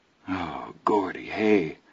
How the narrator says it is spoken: Chris said shakily

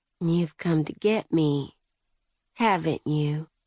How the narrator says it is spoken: she said, smiling softly

